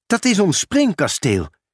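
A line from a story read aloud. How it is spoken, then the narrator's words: Calling out. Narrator (Dutch): riep Lissy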